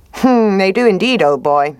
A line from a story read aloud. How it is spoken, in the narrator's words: said the fox